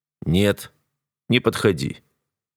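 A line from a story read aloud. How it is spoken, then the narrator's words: Steely command. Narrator (Russian): Стальным тоном приказываю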